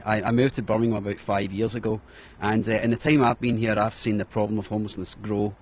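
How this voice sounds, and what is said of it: Non-local accent. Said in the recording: “you can probably tell from my accent, I'm not around here originally”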